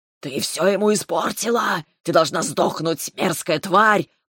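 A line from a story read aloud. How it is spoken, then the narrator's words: Dragon's hiss. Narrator (Russian): прошипел дракон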